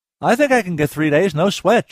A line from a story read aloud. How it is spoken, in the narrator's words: Jay said cheerfully